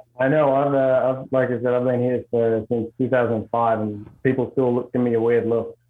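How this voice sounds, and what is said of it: Strong Australian accent. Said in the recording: “the accent from Idaho and Australia ... I don't have near the accent you have”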